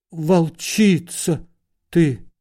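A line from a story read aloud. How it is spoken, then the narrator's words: Uncertain declaration. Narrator (Russian): неуверенно объявил Лоханкин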